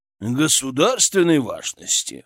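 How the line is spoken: Scoffing hmph. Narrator (Russian): хмыкнул Шаповалов

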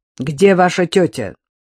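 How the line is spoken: Stern question. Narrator (Russian): строго спросил

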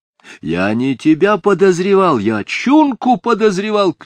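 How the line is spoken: Shouting. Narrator (Russian): крикнул он

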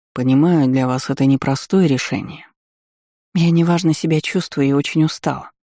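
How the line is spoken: Soft interruption. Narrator (Russian): мягко перебила

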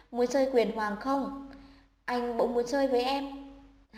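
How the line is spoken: Soft relieved voice. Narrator (Vietnamese): anh bất giác thở phào, khẽ nói

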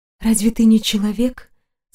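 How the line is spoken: Quiet question. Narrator (Russian): спросила тихо

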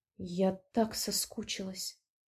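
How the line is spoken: Murmur. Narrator (Russian): пробормотала девушка

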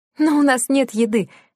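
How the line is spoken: Laughing. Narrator (Russian): посмеялась Лена

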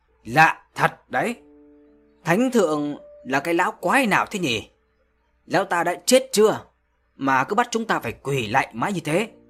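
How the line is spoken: Loud naive question. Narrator (Vietnamese): một gã rốt kinh khủng nào đó đã oang oang hỏi lớn với giọng thơ ngây

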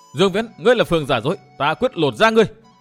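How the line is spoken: Furious shout. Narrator (Vietnamese): Phan Ngọc Anh hét to

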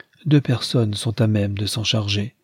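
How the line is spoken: Plain. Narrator (French): répondit Leonard

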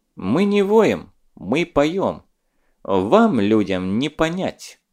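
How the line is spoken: Werewolf speaking through teeth. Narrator (Russian): процедил оборотень

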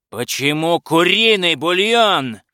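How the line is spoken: Shouting. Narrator (Russian): кричал он

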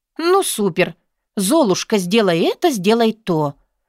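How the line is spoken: Angry muttering under breath. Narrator (Russian): Зло бурчу я себе под нос

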